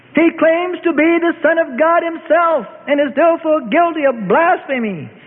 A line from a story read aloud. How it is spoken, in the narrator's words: the agent Annas shouts